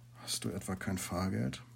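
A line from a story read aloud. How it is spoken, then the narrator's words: Very quiet question. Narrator (German): fragte sehr leise, als dürften es nicht einmal die Bäume hören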